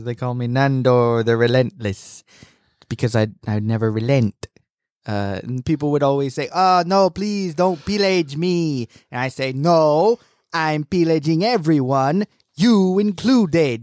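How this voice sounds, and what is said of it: Impression of TV character Nandor. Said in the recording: “I do a pretty good impression of him ... that's how he talks ... it's really good”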